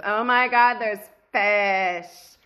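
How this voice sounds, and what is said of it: Excited cartoon teen girl voice. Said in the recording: “just a couple of iterations away from doing a dead-on summer impersonation from Rick and Morty”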